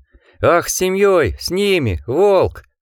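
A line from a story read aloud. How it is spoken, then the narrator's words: Laughing. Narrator (Russian): Волк рассмеялся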